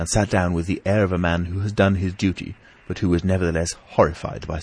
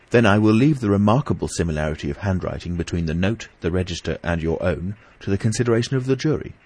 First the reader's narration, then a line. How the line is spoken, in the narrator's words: said Mr